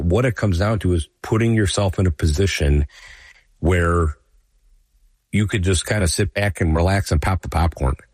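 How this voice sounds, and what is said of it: Slightly scratchy voice. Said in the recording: “my voice may be a little scratchy today, folks... I'm not my normal self”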